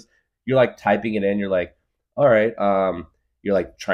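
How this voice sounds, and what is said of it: Usual voice. Nothing is said of it.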